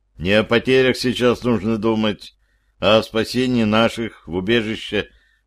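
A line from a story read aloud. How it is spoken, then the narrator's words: Muttered. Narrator (Russian): пробормотал я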